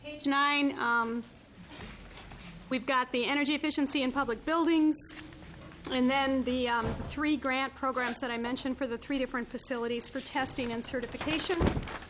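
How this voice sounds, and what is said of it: Strained, fading voice. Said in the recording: “Losing my voice already”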